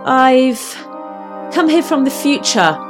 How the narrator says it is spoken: spat out quickly

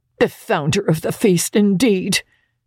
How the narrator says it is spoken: cried Mrs

